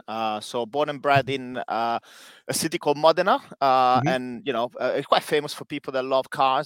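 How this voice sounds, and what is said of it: Italian accent. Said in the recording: “As you probably can guess from my accent, you know, I'm Italian.”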